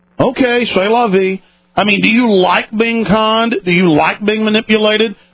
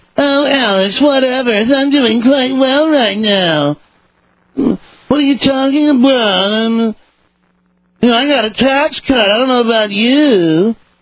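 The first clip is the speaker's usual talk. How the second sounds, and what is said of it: Mocking yuppie voice. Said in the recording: “Let me do the yuppie voice.”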